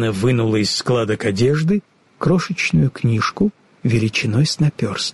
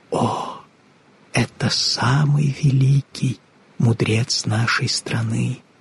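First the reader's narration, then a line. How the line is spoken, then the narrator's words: Old woman whispering. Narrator (Russian): прошептала старушка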